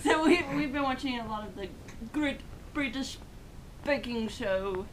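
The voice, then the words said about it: Attempted British accent. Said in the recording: “Was that your British accent?”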